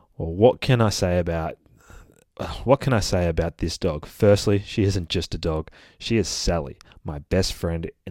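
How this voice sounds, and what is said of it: Australian accent. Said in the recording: “I try to put on my best Aussie accent for you guys, but I reckon I'm already doing a pretty good shot at it”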